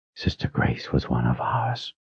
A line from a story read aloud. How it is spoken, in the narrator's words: she whispered